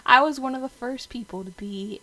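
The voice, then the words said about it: Put-on country accent. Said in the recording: “I don't know why I'm talking in a country accent”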